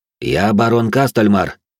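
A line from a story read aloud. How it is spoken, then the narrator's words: Confident tone. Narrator (Russian): уверенным тоном произнес я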